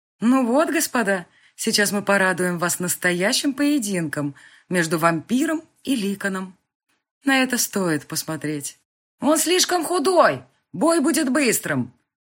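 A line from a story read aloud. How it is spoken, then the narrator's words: Shout from crowd. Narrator (Russian): крикнул кто-то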